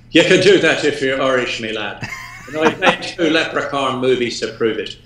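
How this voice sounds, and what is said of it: Put-on Irish accent. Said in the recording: “he's doing the goddamn accent again”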